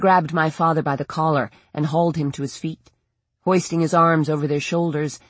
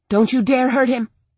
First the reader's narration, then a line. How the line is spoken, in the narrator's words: I snapped